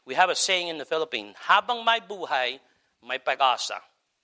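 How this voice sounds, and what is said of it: Filipino phrase in English-sounding accent. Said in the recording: “Man, I said that like an English person. You hear that? You hear my accent got messed up?”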